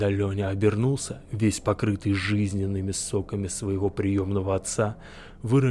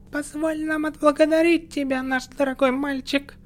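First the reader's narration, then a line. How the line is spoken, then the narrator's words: Shrill falsetto. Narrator (Russian): Визгливым фальцетом обратился к нему хохотуша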